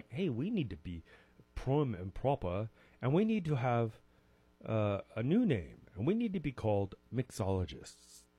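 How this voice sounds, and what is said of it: Bad put-on English accent. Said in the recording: “try to say it in my worst English accent.”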